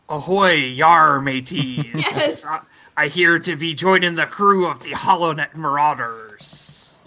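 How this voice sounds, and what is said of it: Put-on pirate accent. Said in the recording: “The accent is also appropriate ... Talk Like a Pirate”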